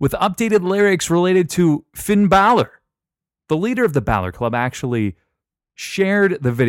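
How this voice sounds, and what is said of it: Usual voice. Nothing is said of it.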